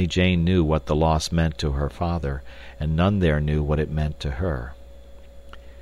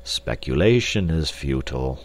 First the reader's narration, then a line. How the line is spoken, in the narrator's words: said sadly